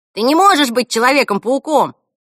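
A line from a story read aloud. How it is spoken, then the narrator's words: Boy shouting. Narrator (Russian): крикнул мальчик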